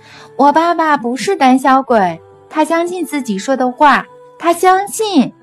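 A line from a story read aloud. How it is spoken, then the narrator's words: Childlike shout. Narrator (Chinese): 用稚气的声音对着观众大喊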